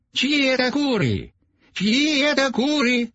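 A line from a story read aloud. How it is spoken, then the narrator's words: Shouted. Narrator (Russian): закричал он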